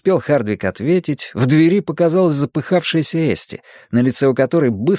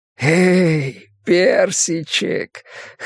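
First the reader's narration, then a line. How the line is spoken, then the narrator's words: Hoarse, tender whisper. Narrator (Russian): хриплый шепот Хардвика сопровождался нежной улыбкой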